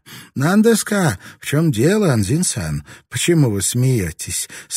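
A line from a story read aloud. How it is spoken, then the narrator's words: Plain. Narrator (Russian): спросила Рака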